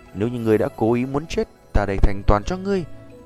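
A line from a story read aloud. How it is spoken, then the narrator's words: Calm, smiling. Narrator (Vietnamese): Tiêu Huyền mỉm cười, giọng nói bình thản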